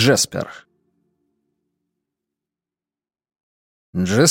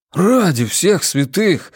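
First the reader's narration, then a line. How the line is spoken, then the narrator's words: Breathless exhale. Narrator (Russian): выдохнул Джеспер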